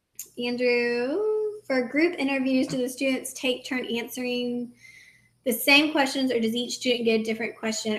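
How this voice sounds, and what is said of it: Strained, tired, fading voice. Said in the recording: “I feel like I'm losing my voice. I've been talking so much.”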